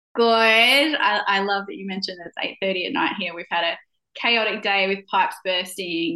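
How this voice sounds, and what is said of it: Australian accent. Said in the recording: “faking an Australian accent”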